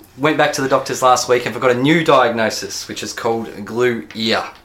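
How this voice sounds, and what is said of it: Sick-sounding voice. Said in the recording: “you might be able to hear in my voice, I've been basically sick since Christmas”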